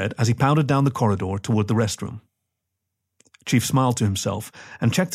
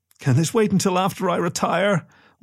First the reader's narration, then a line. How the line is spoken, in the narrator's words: whined Chief